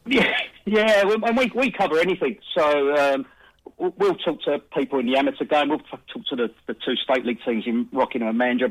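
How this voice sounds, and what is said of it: South London English accent. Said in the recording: “you've got a lovely accent ... lovely accents ... I'm South London born and bred”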